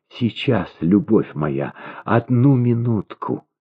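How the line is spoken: Whisper. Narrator (Russian): Она, видя его страдальческое лицо, прошептала

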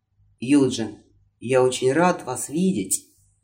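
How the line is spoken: Sighed. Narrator (Russian): вздохнул

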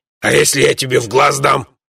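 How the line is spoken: Menacing boom. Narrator (Russian): угрожающе прогудел Бабакан

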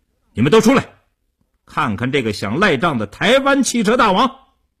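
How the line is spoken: Raised-voice shout. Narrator (Chinese): 叶成坚恶狠狠地 提高声音对里屋喊道

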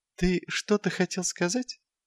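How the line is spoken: Gentle inquiry. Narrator (Russian): мягким тоном осведомился Патриций

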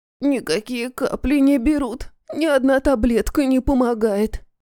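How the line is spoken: Hoarse croak. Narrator (Russian): прохрипела

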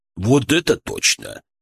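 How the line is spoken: Heavy sigh. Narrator (Russian): тяжело вздохнул

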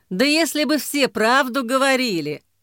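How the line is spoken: Laughing. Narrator (Russian): Гриша засмеялся

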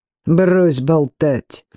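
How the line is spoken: Speech through teeth. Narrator (Russian): процедил

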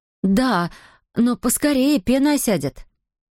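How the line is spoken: Excited spontaneous exclamation. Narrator (Russian): взволнованная Адетта воскликнула со всей непосредственностью

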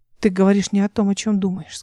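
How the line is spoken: Plain. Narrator (Russian): сказала она

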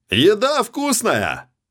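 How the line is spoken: Sudden impulsive yell. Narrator (Russian): Неожиданно для самого себя завопил Ян, повинуясь какому-то внутреннему порыву

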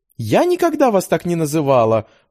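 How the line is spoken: Indignant retort. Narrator (Russian): возмущенно отбросила обвинение девушка

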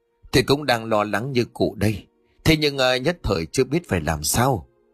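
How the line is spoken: Sighing worried. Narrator (Vietnamese): Ông Phú thở dài bảo

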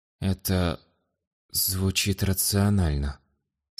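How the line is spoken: Strained young man. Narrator (Russian): с некоторым трудом выдавил из себя юноша

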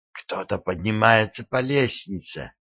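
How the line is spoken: Whisper. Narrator (Russian): прошептала она

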